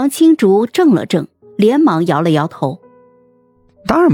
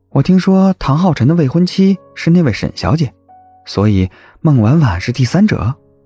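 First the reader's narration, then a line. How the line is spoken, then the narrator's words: Calm, flat after pause. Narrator (Chinese): 叶慕辰默了默，接着淡淡的说道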